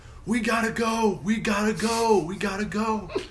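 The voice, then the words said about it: Yelling urgently. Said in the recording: “I'm yelling,”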